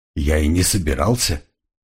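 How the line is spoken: Confused mumble, crocodile. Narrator (Russian): растерянно пробормотал крокодил

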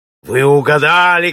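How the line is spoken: Shout with coarse laughter. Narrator (Russian): крикнул француз, разразившись грубым смехом

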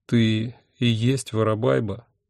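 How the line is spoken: Unhappy voice. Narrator (Russian): несчастным голосом спросил я

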